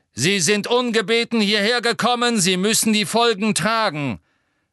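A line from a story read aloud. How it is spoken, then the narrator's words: Centaur calling from crowd. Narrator (German): Ein bärtiger Zentaur rief von hinten aus der Menge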